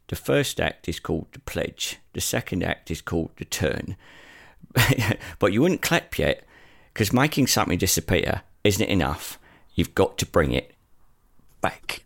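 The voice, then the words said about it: Emotional Michael Caine impression. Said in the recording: “doing my own impression, I'm remembering that opening monologue from Michael Caine from The Prestige ... A little bit of a very emotional Michael Caine there for you.”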